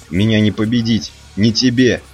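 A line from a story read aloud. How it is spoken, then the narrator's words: Shouting. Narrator (Russian): крикнул Фейд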